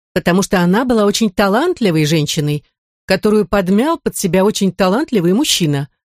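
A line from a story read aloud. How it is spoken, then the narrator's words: Snapped back. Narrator (Russian): огрызнулась жена карикатуриста-пьяницы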